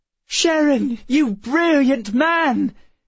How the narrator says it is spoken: shouted Emma

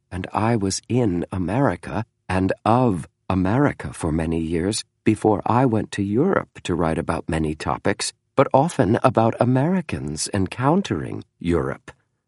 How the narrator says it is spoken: James said softly

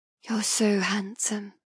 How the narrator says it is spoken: I whisper

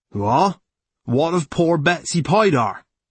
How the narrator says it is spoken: Jack Tripp said, shouting to drown the talk which had broken out

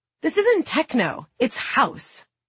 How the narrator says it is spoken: Anna snaps, insulted

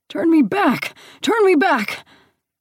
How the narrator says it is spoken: he turned to pleading

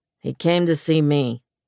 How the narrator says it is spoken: Nash said evenly

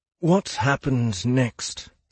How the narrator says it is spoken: Silas asked

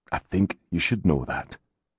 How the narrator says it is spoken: he said softly

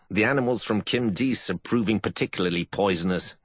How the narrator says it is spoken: Janasek growled

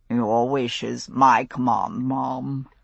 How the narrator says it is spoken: he murmured

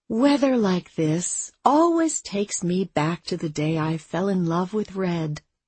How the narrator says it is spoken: Abby said dreamily

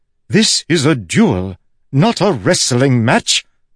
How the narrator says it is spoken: she shouted

